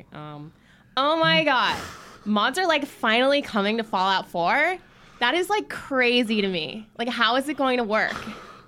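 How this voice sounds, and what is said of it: Put-on American Valley Girl accent. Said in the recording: “if I do the Valley Girl one, it's better ... That's really good.”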